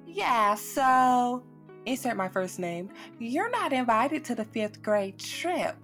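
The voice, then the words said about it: Imitated Southern woman's accent. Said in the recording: “she's a very southern woman, so that accent is very spot on”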